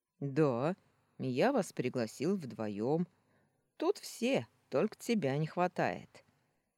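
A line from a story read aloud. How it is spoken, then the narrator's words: Cheerful, happy announcement. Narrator (Russian): весело сообщил, излучая счастье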